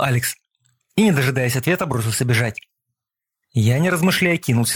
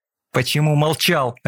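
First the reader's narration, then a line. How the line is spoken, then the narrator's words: Harsh bark. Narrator (Russian): рявкнул я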